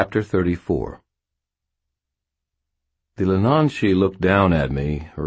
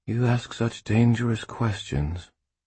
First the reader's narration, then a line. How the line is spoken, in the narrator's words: breathed